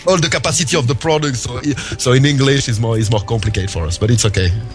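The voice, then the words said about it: French accent in English. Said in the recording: “I'm sorry for my French accent ... my accent”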